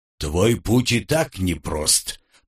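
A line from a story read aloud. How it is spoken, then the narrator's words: Booming drone. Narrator (Russian): прогудел Умрун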